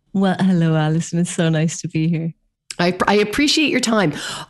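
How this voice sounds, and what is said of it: Irish accent. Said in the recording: “from Ireland, which you'll see by her lovely accent”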